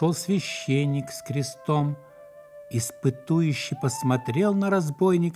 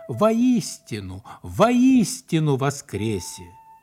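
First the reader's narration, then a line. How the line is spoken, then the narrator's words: Joyful. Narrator (Russian): А тот радостно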